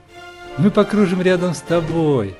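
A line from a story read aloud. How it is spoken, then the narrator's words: Cheerful ringing voice. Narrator (Russian): весело прозвенела снежинка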